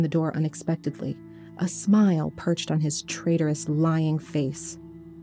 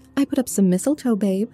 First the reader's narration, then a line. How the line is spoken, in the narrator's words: I exclaimed